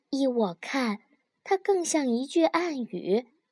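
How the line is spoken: Low voice. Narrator (Chinese): 马蒂尔德低声说

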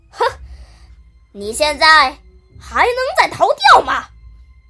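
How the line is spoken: Roaring threat, two voices. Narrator (Chinese): 那两个声音在咆哮着威胁他说

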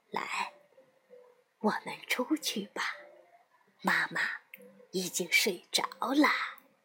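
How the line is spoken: Quiet, hushed. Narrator (Chinese): 外婆小声的对露露说

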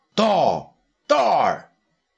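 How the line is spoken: Calling out. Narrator (Chinese): 东方朔叫道

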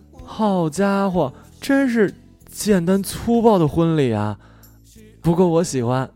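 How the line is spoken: Amazed exclamation. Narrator (Chinese): 他大学同学惊叹呢

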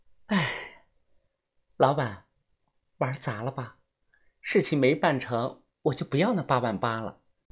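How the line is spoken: Sighing. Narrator (Chinese): 彤彤叹了一声气，说道

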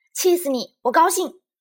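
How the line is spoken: Shouting. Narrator (Chinese): 丽兹冲她喊

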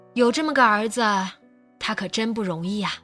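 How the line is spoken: Sighing. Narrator (Chinese): 阿姨叹道

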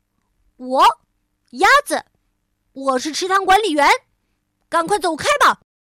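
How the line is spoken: Loud. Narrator (Chinese): 鸭子，大声地说

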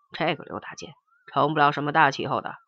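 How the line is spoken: Flat, calm. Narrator (Chinese): 黄埔国荣淡淡的说

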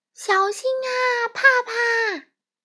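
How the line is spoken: Loud. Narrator (Chinese): 巴里…大声说

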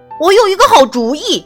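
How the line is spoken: Loud shout. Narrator (Chinese): 他大喊

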